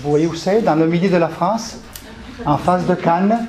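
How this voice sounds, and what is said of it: Italian accent speaking French. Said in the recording (French): “je suis italien d'origine, je suis né à Turin. Vous entendez bien l'accent.”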